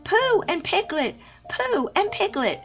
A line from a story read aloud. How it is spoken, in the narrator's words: Something very excited next to the jagular heard him and squeaked